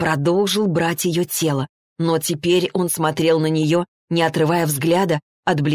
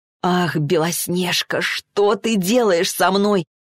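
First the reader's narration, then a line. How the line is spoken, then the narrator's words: Moaned. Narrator (Russian): простонал он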